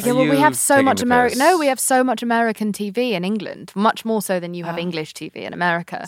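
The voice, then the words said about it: English accent. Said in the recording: “my English accent”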